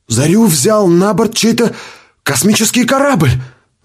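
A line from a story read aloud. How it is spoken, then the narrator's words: Exclaiming. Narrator (Russian): воскликнул кто-то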